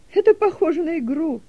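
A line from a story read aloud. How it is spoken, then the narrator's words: Laughing. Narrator (Russian): засмеялась Делека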